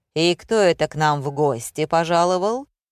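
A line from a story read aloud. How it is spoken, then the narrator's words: Menacing growl. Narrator (Russian): прорычал бородач, нехорошо усмехаясь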